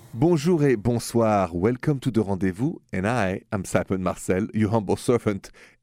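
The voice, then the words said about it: French accent. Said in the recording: “the accent is French”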